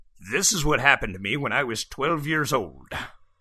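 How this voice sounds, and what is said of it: Old man voice. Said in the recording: “speaking in an old man voice”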